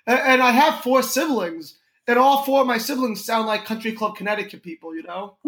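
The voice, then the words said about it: New York accent. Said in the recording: “everyone thinks I have a New York accent... why do you sound so New York?”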